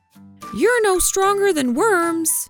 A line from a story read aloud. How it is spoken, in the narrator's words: one worm shouted